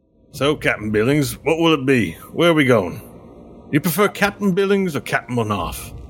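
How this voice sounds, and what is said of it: Rough dockside character accent, unenunciated. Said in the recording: “Problem is his accent ... I've got a bit of a accent from the underbelly of Elhendar where the ship docks are. We speak a bit different there. ... We don't enunciate like the ones up above.”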